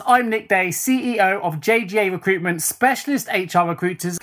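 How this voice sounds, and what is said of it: British accent. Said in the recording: “nice to hear a familiar accent too... it's nice to talk to another Brit”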